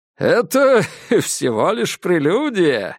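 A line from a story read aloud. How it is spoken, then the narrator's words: Giggled. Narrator (Russian): хихикнул Диккенс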